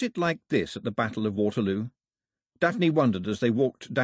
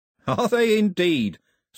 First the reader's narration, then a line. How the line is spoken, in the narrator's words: said Cox cheerfully